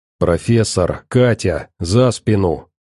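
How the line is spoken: Through gritted teeth. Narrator (Russian): Процедил сквозь зубы сталкер

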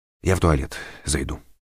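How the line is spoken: Quiet. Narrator (Russian): тихо сказал Данилов

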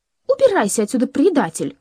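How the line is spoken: Breathless furious shout. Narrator (Russian): крикнула она, задыхаясь в ярости

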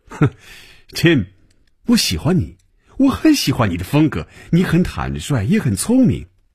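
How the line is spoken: Amused, smiling. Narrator (Chinese): 等他停住了笑声，嘴角仍然带着笑容说

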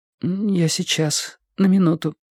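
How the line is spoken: Strained, forced words. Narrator (Russian): выдавила Робин

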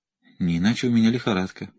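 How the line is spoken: Muttering. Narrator (Russian): пробормотала Салли

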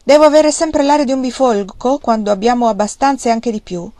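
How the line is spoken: Laughing loudly. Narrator (Italian): Wang Lung rise forte e disse

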